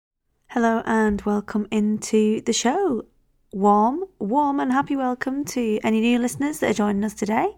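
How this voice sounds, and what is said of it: Croaky voice. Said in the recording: “my voice is a little bit croaky”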